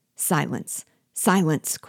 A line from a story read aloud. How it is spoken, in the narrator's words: cried furiously, and fearing the Negroes would hear the assertion